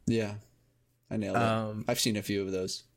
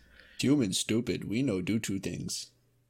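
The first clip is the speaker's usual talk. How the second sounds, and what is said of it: Dumb-human voice, broken speech. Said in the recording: “That was an impression of a human. That was actually pretty good.”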